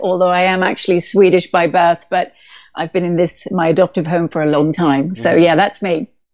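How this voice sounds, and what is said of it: British accent. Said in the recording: “one of you has a British accent ... I'm the one with the British accent”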